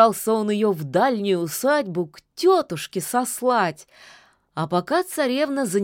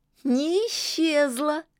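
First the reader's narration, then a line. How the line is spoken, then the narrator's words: Giggling from the river. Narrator (Russian): хихикнула из реки Лада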